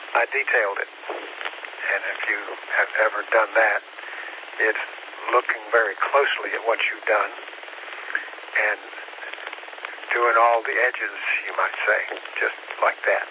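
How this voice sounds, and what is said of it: Hoarse, strained, tired voice. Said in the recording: “lost my voice ... I get tired now, and my voice goes wacky”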